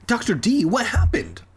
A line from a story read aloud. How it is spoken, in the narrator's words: I asked